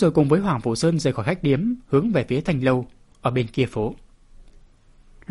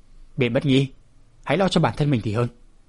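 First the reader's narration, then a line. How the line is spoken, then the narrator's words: Stern voice. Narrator (Vietnamese): Hoàng Phủ Sơn nghiêm giọng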